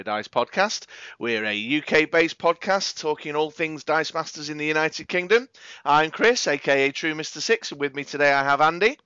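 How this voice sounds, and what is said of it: Croaky, congested, sore-throated voice. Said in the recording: “I don't know if you could tell by the sound of my voice this week... You're sounding proper ropey, mate... I'm sore-throated and a little bunged up and croaky as, man. Croaky as.”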